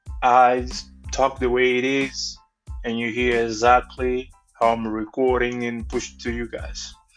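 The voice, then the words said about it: Thick non-native English accent. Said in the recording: “my thick accent, my broken English”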